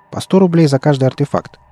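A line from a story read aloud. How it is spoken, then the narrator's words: Quick answer. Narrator (Russian): быстро ответил солдат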